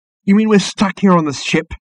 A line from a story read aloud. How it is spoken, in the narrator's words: exclaimed Ford, suddenly losing patience with the whole charade